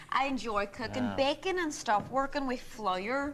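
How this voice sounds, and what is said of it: Northern Irish accent. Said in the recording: “accent ... I'm actually a big fan of Northern Irish accent as well.”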